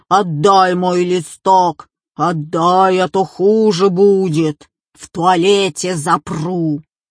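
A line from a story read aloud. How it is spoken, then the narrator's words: Screaming in a terrible voice. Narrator (Russian): Она кричала страшным голосом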